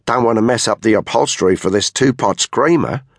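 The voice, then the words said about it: Pronounced Australian accent. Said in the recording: “she said in a very pronounced Australian accent.”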